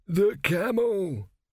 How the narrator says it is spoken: croaked

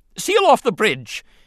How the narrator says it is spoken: he shouted frantically

